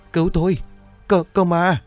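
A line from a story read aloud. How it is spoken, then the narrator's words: Terrified shouting. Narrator (Vietnamese): Hai thằng hét lớn trong sợ hãi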